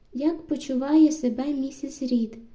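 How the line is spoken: Calm question. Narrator (Ukrainian): запитала я, спокійно

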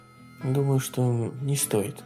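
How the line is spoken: Muttered, female. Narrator (Russian): пробормотала она

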